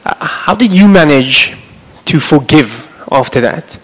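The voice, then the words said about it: Afrikaans-accented English. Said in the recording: “speaks bad English like me in my Afrikaans accent”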